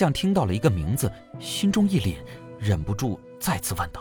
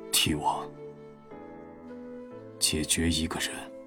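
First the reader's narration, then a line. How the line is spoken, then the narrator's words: Sinister hoarse voice. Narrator (Chinese): 玉舍声音阴哑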